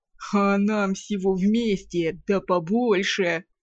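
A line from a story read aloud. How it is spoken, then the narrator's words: Chuckling gnome. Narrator (Russian): хохотнул гном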